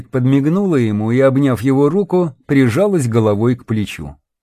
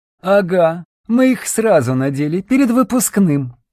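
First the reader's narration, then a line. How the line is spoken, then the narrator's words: Chuckling. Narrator (Russian): хохотнула Ольга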